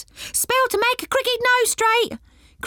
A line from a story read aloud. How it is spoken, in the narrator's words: cried one pixie